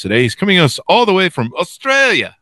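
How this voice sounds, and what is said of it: Poor attempt at Australian accent. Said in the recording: “That's not even right. That's not even an Australian accent.”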